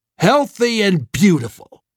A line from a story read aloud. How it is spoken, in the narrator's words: Streeter spat